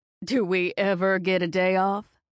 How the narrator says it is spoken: Mom laughs

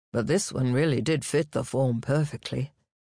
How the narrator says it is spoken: da Udina could not keep himself from groaning

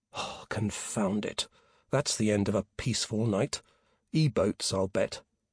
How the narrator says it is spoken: Peter muttered

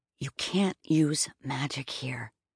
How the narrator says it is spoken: Maine hissed

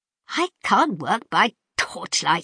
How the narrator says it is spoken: he added testily

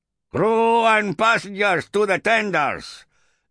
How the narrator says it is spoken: shouted the Iberian captain, fists on hips, red-bearded face split by a foul-toothed grin

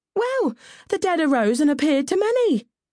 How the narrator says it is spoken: cried one of the coven

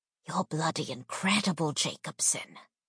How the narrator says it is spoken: Hemsworth leaned over to whisper in my ear

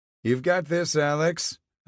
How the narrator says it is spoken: I called out

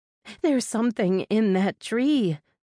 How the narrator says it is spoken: Mindy exclaimed

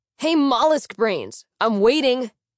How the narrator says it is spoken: Otto shouted

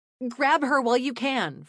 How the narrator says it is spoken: Fran shouted

